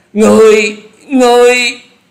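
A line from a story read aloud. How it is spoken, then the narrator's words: Terrified shouts in unison. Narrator (Vietnamese): bốn gã cuồng ma đều không hẹn mà la lên kinh hãi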